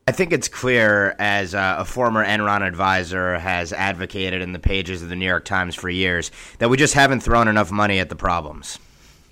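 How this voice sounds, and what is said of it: Sarcastic delivery. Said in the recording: “I was being sarcastic”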